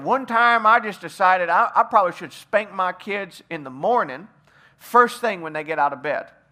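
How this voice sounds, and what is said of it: Put-on Southern accent. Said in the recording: “a dad one time who had kind of a southern accent ... You like my southern accent? I work on accents all the time.”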